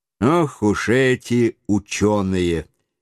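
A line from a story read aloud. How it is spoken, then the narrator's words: Calm. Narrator (Russian): спокойно промолвил майор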